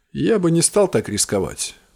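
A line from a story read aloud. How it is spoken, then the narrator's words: Thoughtful. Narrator (Russian): задумчиво сказал Креун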